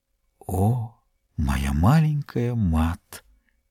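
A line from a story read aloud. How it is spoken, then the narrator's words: Whisper. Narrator (Russian): Жорж прошептал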